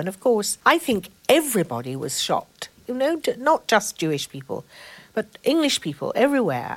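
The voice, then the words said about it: Posh Oxford English accent. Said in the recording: “you can tell from this voice that I'm saddled with, Oxford accent that I've got ... it's a beautiful voice”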